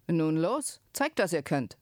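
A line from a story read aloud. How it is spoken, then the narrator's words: Innkeeper calling out. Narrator (German): der Wirt rief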